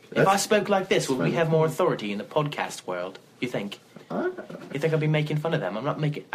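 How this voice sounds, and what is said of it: Put-on British accent. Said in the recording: “you have to say that in a British accent ... Middle Earth people clearly have accents like this ... I think my accent is rather good”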